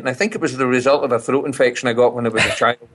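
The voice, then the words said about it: Distinctive Scottish accent. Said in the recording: “been away from Scotland over 50 years, I've retained this accent ... it's very distinctive ... unique sort of sounding uh, flavor to it”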